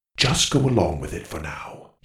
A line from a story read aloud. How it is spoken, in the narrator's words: whispered